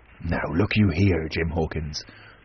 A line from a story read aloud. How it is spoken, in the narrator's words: he said with a steady whisper that was no more than audible